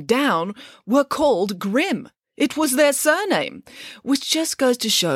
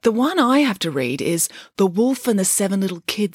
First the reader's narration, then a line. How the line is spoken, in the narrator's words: said Samantha